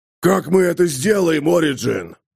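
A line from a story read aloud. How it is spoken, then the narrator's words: Roaring fanged knight. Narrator (Russian): взревел клыкастый рыцарь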